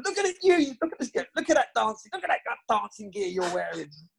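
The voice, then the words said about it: Imitates another person's voice. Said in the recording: “I can't do a very good Steve Cottrell accent.”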